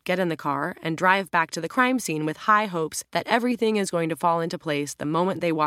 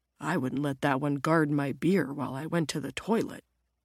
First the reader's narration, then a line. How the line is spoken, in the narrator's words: Jim mutters back